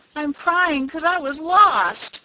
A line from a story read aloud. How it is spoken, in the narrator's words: bawled Rob, trying to squeeze out a tear and failing entirely